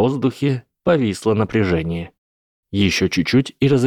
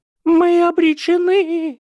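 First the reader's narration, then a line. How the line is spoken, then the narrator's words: Shrieking. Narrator (Russian): Завизжала Мелисента Булстроуд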